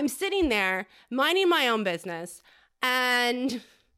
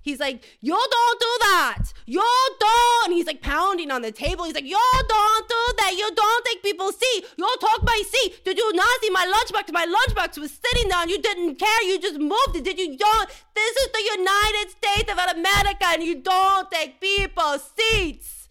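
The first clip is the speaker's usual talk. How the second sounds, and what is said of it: Put-on Asian accent, yelling. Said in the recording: “I don't know if I can do an Asian accent right now, but I will try ... I don't know if that was eh, Indian or Asian”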